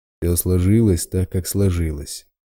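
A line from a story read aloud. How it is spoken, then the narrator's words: Bear's snort. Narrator (Russian): хмыкнул медведь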